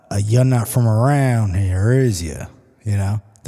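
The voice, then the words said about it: Put-on rural Southern accent. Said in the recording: “They somehow have a southern accent”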